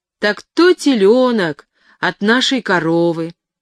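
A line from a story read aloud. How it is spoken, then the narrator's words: Loud and joyful. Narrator (Russian): сказал громко и радостно Чмуневичев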